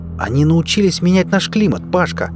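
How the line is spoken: Exclaimed. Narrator (Russian): воскликнул Лёс

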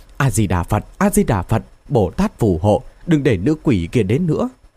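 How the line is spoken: Stammering prayer chant. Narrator (Vietnamese): Phi Yến lắp bắp niệm Phật hiệu

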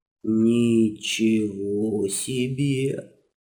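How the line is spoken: Slow quiet gasp. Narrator (Russian): Так же медленно и тихо охнул Иван

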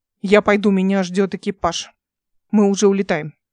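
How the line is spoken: Curt, clipped. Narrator (Russian): отрывисто сказал он

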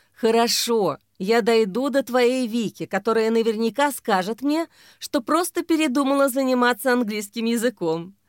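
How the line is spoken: Laughing. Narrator (Russian): засмеялась Ксения

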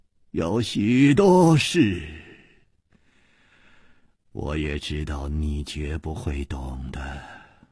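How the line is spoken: Calm sigh. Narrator (Chinese): 也不生气，竟又叹息了一声

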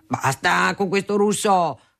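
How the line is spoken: Thundering father's voice. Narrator (Italian): tuonava mio padre

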